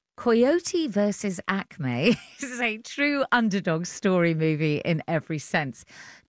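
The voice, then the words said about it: English accent. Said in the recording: “Shall I carry on doing it in my English accent?”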